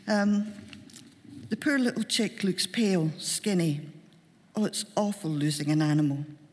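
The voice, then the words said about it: Glaswegian Scottish accent. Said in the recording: “I'm a Glaswegian, I can't do upper-class accent ... if this all comes out Glaswegian”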